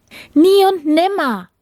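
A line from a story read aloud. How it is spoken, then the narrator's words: Princess's call. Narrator (German): rief die Prinzessin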